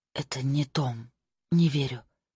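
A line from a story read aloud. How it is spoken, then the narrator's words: Whisper. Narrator (Russian): прошептала она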